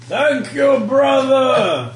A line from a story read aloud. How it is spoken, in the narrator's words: You shout